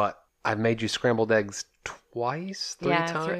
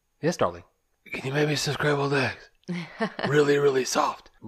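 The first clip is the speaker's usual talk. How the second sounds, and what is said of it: Imitates another person's voice. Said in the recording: “I'll do my best to get an impersonation of that first night.”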